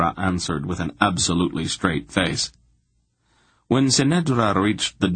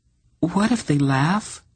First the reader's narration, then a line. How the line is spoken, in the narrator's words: she demanded in a frightened voice